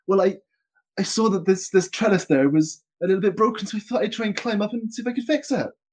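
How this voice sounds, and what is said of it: Rustic English countryside gardener accent. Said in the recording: “A lovely accent ... All their gardeners come from the Shires ... it's the most gardenery voice I can think of”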